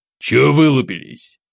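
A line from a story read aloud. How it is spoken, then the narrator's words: Stern bass, hint of smile. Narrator (Russian): Строгим голосом, но с легкой улыбкой на устах пробасил капитан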